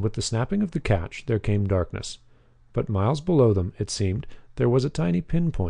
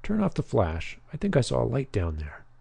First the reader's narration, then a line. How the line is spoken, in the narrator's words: whispered Tommy